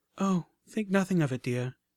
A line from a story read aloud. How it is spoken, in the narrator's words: she whinnied kindly